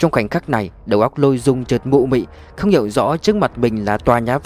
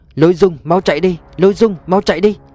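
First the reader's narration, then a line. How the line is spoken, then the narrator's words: Desperate loud shout. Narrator (Vietnamese): Vương Tuyết Nha liều mạng, hét lớn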